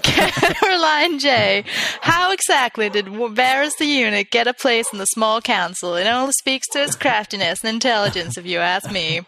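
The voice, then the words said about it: Put-on Southern women's accent. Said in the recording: “my accent that I can't seem to shake ... southern women”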